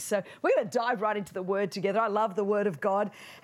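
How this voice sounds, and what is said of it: Australian accent. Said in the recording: “what is this accent here? This is kind of how you really speak English. I'm from the land down under, Sydney, Australia”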